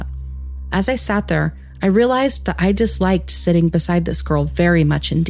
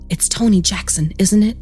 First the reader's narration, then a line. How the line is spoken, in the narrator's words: She whispered